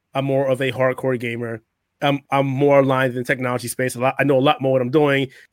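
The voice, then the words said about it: Strained, fading voice. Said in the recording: “I'm starting to lose my voice again”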